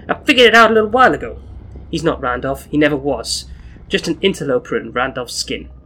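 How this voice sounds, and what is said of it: Put-on Brooklyn accent. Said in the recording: “I should be doing this in my Brooklyn accent.”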